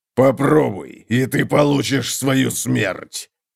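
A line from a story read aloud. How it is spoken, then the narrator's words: Growl. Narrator (Russian): прорычал Готрек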